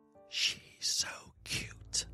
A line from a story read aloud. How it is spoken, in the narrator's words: someone whispered in my ear